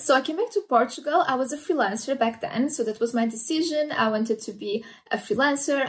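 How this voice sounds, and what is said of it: Hard-to-place mixed accent. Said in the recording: “my accent is a mix of everything. Nobody can place where my accent is from.”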